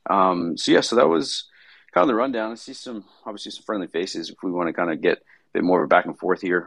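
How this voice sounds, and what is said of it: Slightly raspy, tired voice. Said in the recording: “my voice is a little raspy. I'm a little tired today”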